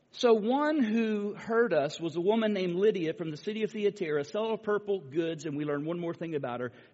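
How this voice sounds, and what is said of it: Spanish accent. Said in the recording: “I speak Greek with a Spanish accent”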